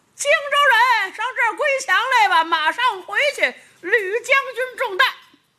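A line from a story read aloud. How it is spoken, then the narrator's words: Loud shouting. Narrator (Chinese): 有人高声喊嚷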